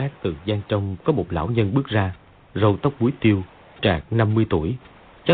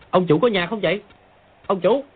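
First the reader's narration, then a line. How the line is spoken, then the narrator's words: Calling loudly. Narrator (Vietnamese): Bèn lớn tiếng gọi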